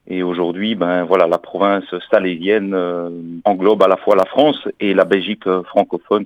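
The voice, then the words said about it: Belgian French accent. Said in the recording (French): “Vous entendez peut-être à mon accent que je suis euh, pas parisien, je suis belge.”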